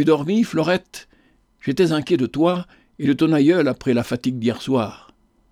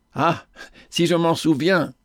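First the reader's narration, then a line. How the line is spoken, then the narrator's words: Laughing. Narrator (French): dit-elle en riant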